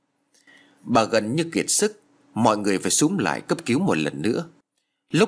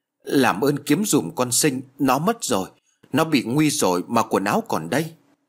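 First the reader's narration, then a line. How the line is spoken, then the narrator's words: Louder wailing. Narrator (Vietnamese): bà lại gào to hơn nữa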